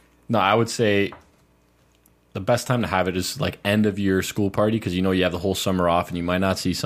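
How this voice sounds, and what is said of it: Usual voice. Nothing is said of it.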